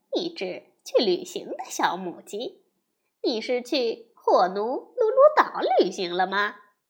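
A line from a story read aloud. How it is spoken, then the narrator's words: Cow laughing loudly. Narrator (Chinese): 棕色的奶牛大笑起来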